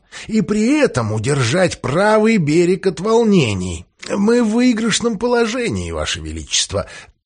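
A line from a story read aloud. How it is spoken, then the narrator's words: Hoarse wheezing. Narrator (Russian): просипел Джефферсон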